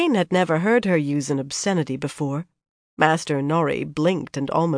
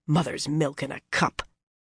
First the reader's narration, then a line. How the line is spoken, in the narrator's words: she muttered